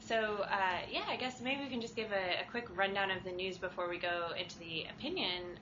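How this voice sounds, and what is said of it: American accent. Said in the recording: “my American accent,”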